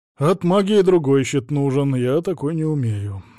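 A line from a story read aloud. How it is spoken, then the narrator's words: Sighing. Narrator (Russian): вздохнул Савелий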